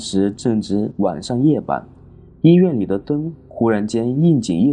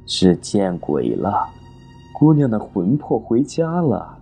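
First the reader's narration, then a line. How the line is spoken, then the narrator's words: Sinister laugh. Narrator (Chinese): 梁栋 阴森森的一笑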